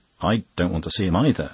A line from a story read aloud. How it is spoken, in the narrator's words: Gowing jumped up suddenly, exclaiming